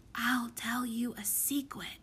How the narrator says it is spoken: whispered

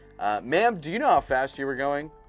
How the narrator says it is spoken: asked Broderick

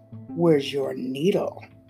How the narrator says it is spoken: His voice hissed from behind her

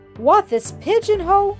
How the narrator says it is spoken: he exclaimed, wrathfully

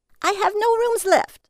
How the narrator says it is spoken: she screamed

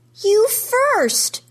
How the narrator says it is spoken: she yells

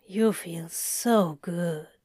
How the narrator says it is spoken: he murmured sleepily

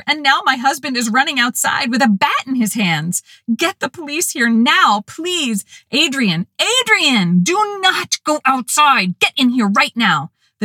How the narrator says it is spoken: screamed at the dispatcher

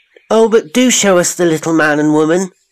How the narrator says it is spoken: they cried

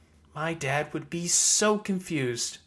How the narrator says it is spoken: Verona whispered

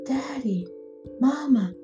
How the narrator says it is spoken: called out in a whisper

